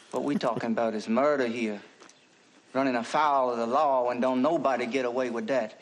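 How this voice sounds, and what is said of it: Musical Southern accent. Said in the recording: “I love his accent ... I love the Southern voice ... mostly it's the music of it. And, boy, he is musical”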